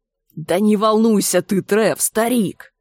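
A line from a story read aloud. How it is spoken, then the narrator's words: Menacing hiss. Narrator (Russian): прошипел Энди, угрожающе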